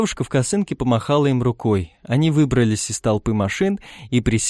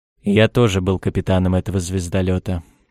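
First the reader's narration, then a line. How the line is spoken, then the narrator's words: Gloomy, heavyset man. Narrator (Russian): мрачно сообщил грузный, темнолицый человек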